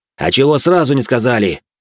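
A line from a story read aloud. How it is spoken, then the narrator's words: Growling. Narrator (Russian): прорычал я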